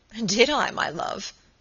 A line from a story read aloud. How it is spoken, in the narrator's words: said, laughing